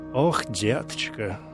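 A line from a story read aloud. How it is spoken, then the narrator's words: Sighing. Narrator (Russian): вздохнула Флоренс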